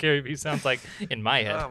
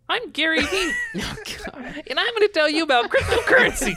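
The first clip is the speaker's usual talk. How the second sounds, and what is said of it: Imitates another person's voice. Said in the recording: “do your Gary Vee accent ... It doesn't sound anything like him.”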